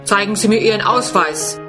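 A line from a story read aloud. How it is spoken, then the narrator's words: Stern. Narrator (German): sagt streng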